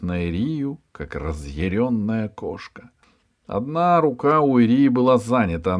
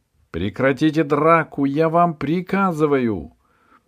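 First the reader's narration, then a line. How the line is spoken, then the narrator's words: Loud, commanding. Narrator (Russian): Получилось так громко, так повелительно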